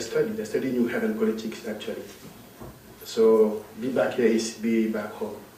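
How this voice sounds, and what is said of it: Non-native English accent. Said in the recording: “forgive my accent and also my poor English”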